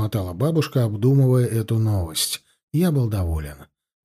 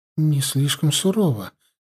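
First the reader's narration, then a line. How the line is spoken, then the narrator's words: Uncertain question. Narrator (Russian): неуверенно спросила мама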